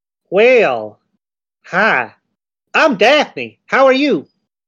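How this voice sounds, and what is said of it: Put-on southern accent. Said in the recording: “I'm going to have a southern accent the entire night because I did a southern accent already”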